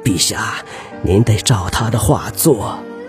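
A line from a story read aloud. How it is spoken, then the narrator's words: Nervous whisper. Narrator (Chinese): 完颜成辉紧张地靠向皇帝耳边，他轻声对小皇帝说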